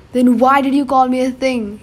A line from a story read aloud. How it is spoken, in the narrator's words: yelled